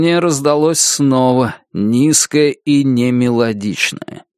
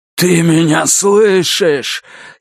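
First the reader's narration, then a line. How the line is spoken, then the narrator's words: Hoarse, almost passionate voice. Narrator (Russian): Его голос хриплый и почти страстный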